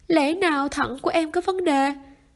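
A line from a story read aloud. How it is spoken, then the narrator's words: Frightened cry. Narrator (Vietnamese): Cao Nhiên sợ hãi kêu lên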